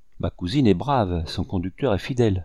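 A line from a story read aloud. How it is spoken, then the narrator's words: Plain. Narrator (French): dit le capitaine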